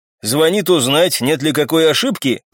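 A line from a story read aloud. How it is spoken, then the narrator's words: Knowing snort. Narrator (Russian): понимающе хмыкнул офицер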